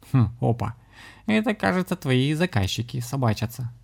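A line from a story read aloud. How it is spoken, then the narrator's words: Chuckling. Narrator (Russian): хохотнул кот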